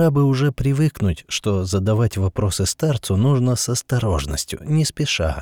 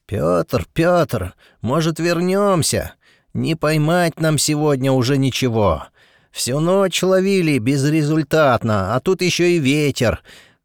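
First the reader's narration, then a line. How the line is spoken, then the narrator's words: Bearded man shouting. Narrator (Russian): кричал бородатый мужик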